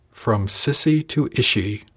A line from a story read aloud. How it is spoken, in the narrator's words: chuckle nastily